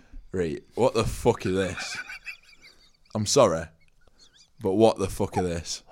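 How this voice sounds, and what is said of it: Angry put-on Yorkshire accent. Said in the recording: “I want to hear that Yorkshire accent again... You're a disgruntled customer in a curry house... You're angry at the food you've got”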